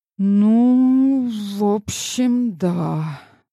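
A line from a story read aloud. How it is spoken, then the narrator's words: Sighing. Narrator (Russian): вздохнул Ренат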